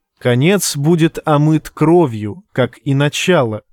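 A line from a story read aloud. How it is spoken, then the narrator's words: Plain. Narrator (Russian): сказала Ним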